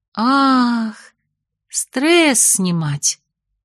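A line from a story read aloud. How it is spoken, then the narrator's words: Drawled. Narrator (Russian): протянула я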